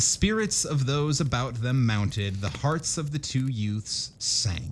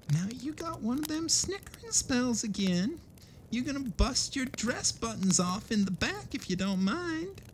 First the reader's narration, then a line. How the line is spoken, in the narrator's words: Katie whisper